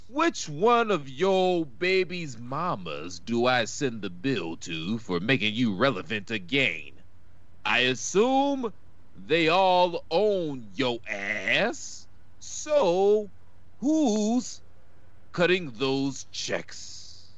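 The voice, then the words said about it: Imitates another person's voice. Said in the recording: “your Randy Orton impersonation?”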